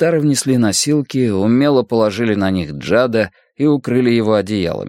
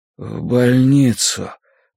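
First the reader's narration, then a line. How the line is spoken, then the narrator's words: Weak mumble. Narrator (Russian): пробормотал Джад, не в силах открыть глаза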